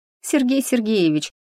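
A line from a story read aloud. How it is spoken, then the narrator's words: Pleading squeak. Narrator (Russian): пискнула умоляюще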